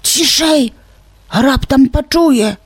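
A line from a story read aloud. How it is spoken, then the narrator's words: Hissed whisper. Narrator (Belarusian): прашыпеў Воська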